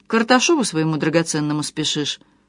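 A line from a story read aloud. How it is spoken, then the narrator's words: Almost calm question. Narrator (Russian): спросил Петр почти спокойно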